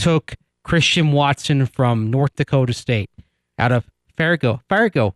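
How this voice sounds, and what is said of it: Usual voice. Nothing is said of it.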